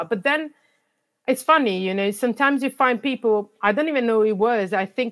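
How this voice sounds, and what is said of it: Non-native English accent. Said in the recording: “Having an accent in some places doesn't help ... my accent was a barrier for me to access the jobs that I wanted ... you have an accent”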